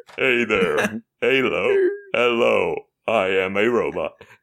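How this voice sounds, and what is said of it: Robot voice. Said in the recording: “my robot impression.”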